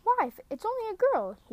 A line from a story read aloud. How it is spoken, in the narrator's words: he exclaimed